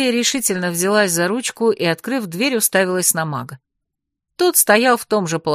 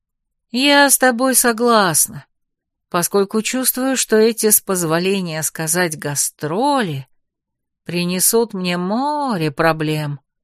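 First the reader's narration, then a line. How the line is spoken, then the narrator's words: Gloomy drawl. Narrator (Russian): мрачно протянула я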